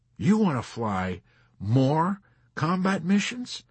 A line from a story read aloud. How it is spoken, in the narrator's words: Colonel Cathcart gasped